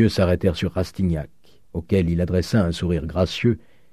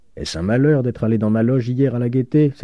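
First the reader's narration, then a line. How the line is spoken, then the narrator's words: Exclaimed. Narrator (French): s'écria-t-il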